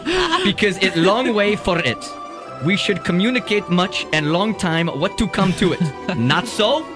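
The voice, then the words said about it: Put-on foreign accent. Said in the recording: “This is so surreal with his accent”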